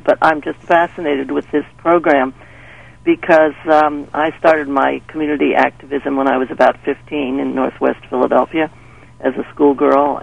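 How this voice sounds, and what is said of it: Croaky voice. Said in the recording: “I have a bit of a croaky voice... I've got a little cold”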